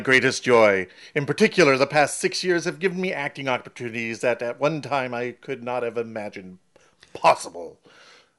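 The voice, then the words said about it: Poor imitation of another person's voice. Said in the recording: “That was so bad, I don't even want to even claim it was a Patrick Stewart imitation.”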